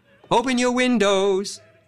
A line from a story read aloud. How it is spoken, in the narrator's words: cried all the neighbors